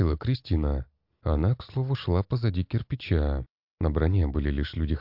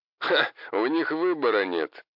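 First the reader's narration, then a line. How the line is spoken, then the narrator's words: Laughing. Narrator (Russian): рассмеялся Хосе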